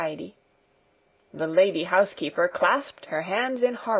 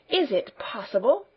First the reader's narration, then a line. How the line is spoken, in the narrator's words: she stammered half aloud